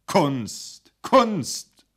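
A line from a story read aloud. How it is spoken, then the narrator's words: Repeated call. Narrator (German): rief er noch einmal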